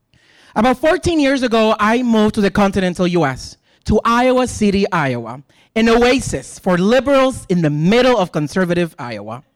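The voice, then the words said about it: Thick Latino accent. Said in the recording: “people started making comments about my accent... Your accent is so thick.”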